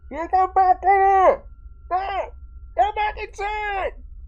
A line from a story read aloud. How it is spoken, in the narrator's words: shouts from the other side of the door